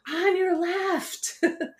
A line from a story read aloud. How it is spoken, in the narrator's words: he shouted one more time